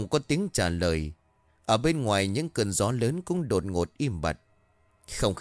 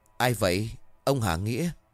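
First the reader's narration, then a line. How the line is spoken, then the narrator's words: Trembling call. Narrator (Vietnamese): Nó run rẩy hỏi vọng ra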